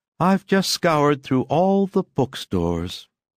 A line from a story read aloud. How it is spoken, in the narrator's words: sighed the daughter